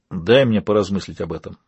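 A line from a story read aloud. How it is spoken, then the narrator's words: Grumbled. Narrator (Russian): буркнул Вейл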